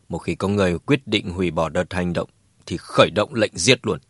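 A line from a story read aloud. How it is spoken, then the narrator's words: Cold. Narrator (Vietnamese): Đỗ Ngọc Sơn lạnh lùng nói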